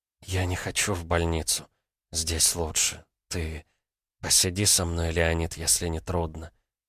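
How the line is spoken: Whispered. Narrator (Russian): прошептала она

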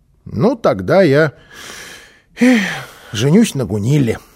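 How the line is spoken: Child's sigh. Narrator (Russian): вздохнул малыш

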